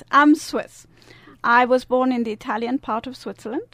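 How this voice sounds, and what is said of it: Lovely foreign accent. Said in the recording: “she has this lovely, wonderful accent.”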